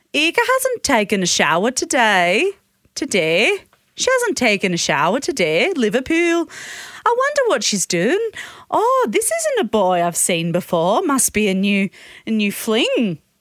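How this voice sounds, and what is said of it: Poorly done put-on Liverpool accent. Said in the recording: “Liverpool. ... I'm not doing the accent very well. ... We're all aware of that.”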